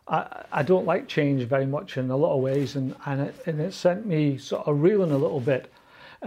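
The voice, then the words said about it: Scottish accent. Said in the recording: “You think my accent's bad now? ... the more Scottish I spoke”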